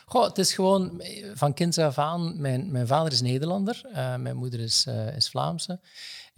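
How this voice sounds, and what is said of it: Slight Dutch accent in Flemish. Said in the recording (Dutch): “er zit daar precies nog een ander accent ergens in. Maar het is dus het Hollands ... ik hoor het nog een beetje ... een klein beetje inderdaad”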